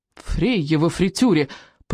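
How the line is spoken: Grumbling. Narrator (Russian): проворчал рыбьенок

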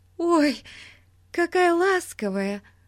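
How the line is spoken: Joyful exclamation. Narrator (Russian): воскликнула Дейзи радостно

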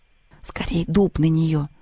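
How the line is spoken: Whispering. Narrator (Russian): прошептала Инка Семенова

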